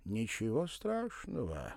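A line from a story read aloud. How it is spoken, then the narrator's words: Drawling. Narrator (Russian): протянул араб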